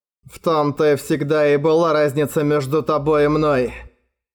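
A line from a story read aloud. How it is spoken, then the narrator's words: Grumbling. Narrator (Russian): проворчал Муртак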